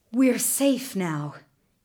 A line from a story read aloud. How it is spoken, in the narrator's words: panted